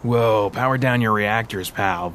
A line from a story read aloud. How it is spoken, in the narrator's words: Vince chuckled